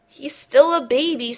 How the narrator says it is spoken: sighed his mama

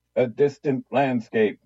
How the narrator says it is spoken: barked

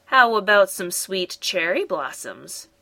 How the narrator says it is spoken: said Molly

